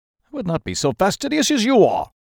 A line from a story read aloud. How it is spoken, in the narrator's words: cried Mr